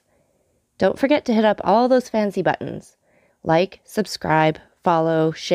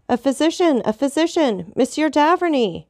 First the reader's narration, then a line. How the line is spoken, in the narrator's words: cried Villefort